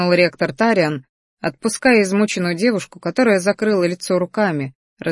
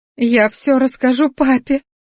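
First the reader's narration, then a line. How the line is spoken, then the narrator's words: Sobbing. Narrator (Russian): всхлипывала она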